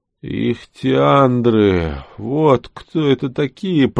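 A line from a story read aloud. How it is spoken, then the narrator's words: Grumble. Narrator (Russian): проворчал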